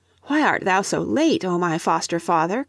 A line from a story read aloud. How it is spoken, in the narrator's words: cried Leif